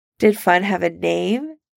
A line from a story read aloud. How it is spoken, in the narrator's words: Jan asks teasingly